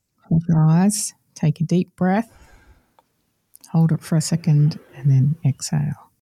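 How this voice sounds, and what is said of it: Calm counselor-style voice. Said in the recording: “put on a counselor voice”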